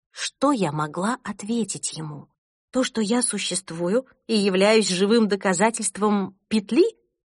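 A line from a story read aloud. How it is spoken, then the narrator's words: Calmer after pause. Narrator (Russian): Он передохнул и продолжил более спокойно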